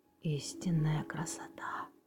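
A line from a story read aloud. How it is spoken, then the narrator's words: Whispered. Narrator (Russian): прошептал Арнольд Джексон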